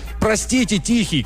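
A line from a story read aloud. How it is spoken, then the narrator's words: Shout. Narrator (Russian): кричал он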